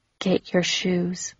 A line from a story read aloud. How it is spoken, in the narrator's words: he whispered in my ear